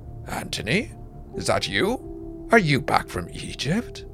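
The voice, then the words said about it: Quiet voice. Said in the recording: “in a quiet voice,”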